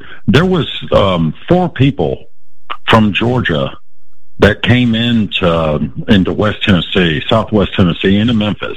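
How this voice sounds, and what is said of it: Tennessee regional accent. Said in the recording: “He's got the accent.”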